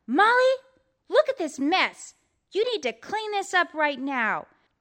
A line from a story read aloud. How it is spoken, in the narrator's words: Molly's mother saw this, she yelled